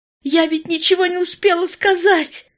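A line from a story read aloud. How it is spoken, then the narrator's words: Straining scream. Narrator (Russian): Луиза рванулась из последних сил и закричала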